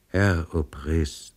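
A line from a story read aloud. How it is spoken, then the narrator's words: Very quiet reply. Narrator (German): erwiderte der Pristav sehr leise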